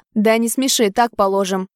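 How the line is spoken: Angry reply. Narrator (Russian): зло ответил Рома

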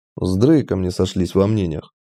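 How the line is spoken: Muttering. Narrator (Russian): буркнул я

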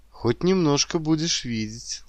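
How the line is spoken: Gentle, affectionate. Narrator (Russian): ласково проговорила Виктория

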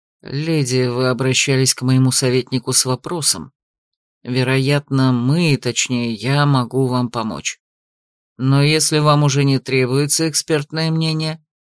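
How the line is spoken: Low voice. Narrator (Russian): Он сказал вполголоса

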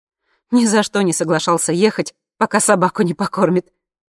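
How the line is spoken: Laughing. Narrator (Russian): смеясь сказала Ира Сереже

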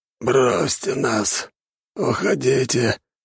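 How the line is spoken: Hoarse, weak man's voice. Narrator (Russian): Голос мужчины, лежавшего на носилках, был хриплым, и в нем почти не было сил

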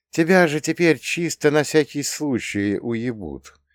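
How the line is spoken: Sad sigh. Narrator (Russian): грустно вздохнул

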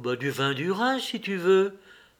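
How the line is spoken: Timid reply. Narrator (French): répondit timidement

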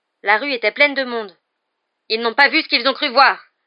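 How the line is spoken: Fierce retort. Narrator (French): lança Black d'un ton féroce

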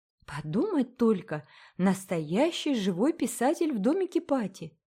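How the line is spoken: Exclaim. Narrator (Russian): воскликнула Присцилла

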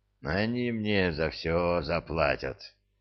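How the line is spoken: Hoarse exhale. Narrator (Russian): хрипло выдохнул Илианец

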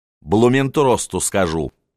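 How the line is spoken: Growling. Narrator (Russian): зарычала Анна Иоанновна

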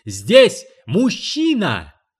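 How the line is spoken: Shrieking. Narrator (Russian): визжала Пушинка

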